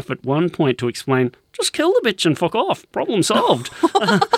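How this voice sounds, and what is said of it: Poor put-on Derry accent. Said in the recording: “That was a terrible Derry accent.”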